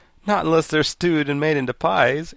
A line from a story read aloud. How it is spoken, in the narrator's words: answered the boy, laughing